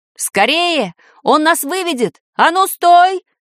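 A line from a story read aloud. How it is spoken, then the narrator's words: Shouted. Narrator (Russian): крикнул баб-ягун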